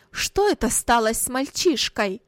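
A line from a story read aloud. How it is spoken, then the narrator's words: Angry mother crying out. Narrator (Russian): сердито вскричала мать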